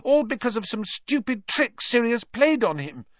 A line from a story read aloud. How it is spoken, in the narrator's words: Hermione said desperately